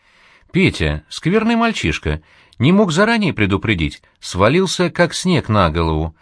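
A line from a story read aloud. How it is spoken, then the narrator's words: Coquettish complaining. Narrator (Russian): жаловалась сестра Зуева, кокетливо улыбаясь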